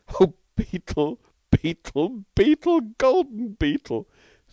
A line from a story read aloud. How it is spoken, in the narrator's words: sobbed Stalky